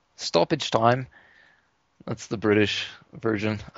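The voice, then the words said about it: Poor attempt at British accent. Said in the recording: “That accent was not the British version.”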